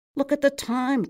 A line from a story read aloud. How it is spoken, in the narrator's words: cried Fischkoppel